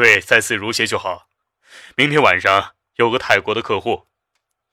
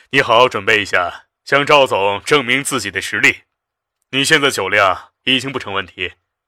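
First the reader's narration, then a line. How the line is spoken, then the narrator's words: Bright, cheerful voice. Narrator (Chinese): 肖斌笑得清朗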